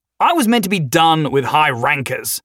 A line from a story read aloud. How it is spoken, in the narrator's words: he snarled